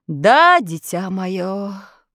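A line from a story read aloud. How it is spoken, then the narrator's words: Sighing. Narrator (Russian): вздохнул Гудвин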